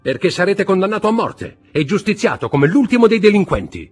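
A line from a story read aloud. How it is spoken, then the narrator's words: Shouted. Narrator (Italian): gridò Eugénie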